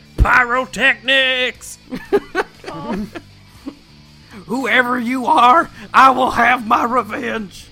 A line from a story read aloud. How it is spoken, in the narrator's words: Hercule down on two knees, screaming to the sky